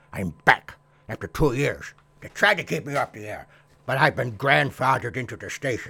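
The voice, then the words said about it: Old man character voice. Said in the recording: “there's no mistaking my accent ... I'm the old codger”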